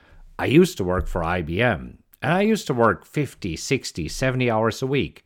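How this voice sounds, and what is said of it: German accent in English. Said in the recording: “you might recognize an accent, and yes, I am originally from Germany”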